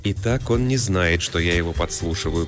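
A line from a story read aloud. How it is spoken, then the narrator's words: Private muttering. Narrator (Russian): пробормотала Афония, понимая, что ее слышит только Бертрос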